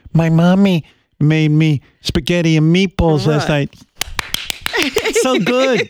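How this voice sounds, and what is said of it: Baby voice. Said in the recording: “puts on that baby voice”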